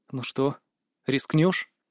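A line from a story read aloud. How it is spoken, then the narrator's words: Quiet whisper in ear. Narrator (Russian): Тихо шепнул ему на ухо я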